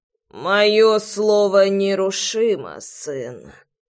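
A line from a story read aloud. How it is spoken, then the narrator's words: Creaky voice. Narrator (Russian): проскрипел он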